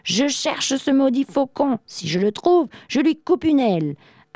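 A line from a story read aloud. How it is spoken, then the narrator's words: Exclaimed. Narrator (French): Arthur s'écrie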